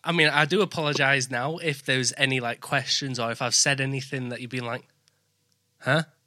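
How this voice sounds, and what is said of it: Thick northern English accent. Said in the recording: “speak very fast here in the north of England ... you do have a very thick accent”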